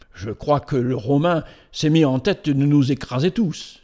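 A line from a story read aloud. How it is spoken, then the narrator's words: Exclaimed. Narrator (French): s'écria Malouk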